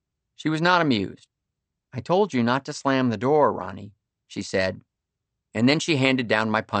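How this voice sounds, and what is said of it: Usual voice. Nothing is said of it.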